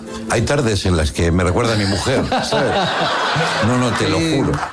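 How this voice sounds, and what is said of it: Put-on Argentine accent. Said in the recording (Spanish): “Te sale el acento ... Sí, me sale el acento, che, obvio, estoy aquí ... Segundo programa en Argentina”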